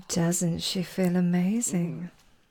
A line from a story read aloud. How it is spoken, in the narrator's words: I purred in his ear